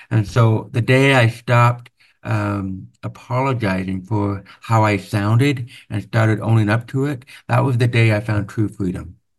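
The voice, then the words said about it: Deaf accent. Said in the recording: “my deaf accent isn't a flaw, it's a feature, right? This voice, my voice, it's me. It's not just an accent”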